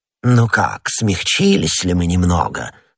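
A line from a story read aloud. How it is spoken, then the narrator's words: Menacing questioning voice. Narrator (Russian): спросил голос, так грозно отдавшийся у меня в ушах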